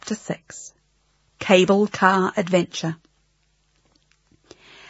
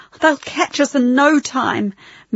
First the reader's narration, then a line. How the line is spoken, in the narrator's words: moaned Max